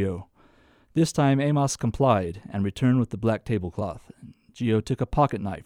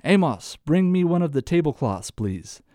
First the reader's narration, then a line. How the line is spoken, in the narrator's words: Geo called out to Amos